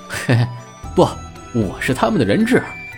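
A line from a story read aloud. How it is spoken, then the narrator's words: Laughing. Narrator (Chinese): 朱熹笑着说道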